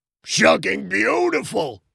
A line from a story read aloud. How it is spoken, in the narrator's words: John screamed, wiping away tears